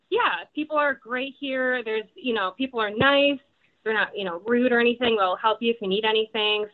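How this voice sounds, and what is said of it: Midwestern American accent. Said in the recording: “I can definitely hear the accent ... I noted the Midwestern accent”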